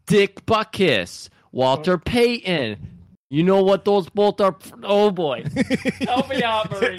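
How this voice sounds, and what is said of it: Weak put-on Chicago accent. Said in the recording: “That's a Chicago accent... no, it wasn't good, but you did it”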